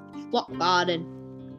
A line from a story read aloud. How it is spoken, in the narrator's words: he said in a rough voice